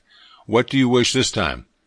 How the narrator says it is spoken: In a calm, kindly tone of voice, he asked

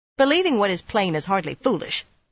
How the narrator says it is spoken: Romanda barked

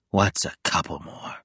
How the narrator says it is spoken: Will groaned

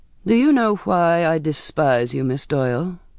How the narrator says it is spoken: It was said evenly, without emotion

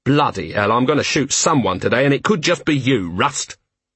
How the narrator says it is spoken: Vimes snarled

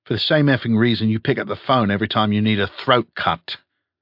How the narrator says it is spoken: snapped Toys

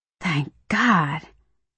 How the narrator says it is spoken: I whisper

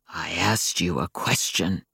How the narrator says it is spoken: he growled from the depths of the big space beyond the office door

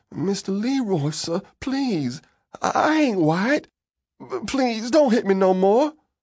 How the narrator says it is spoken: I begged him

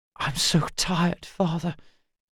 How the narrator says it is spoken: he whispered

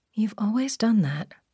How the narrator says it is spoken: Adrian murmured

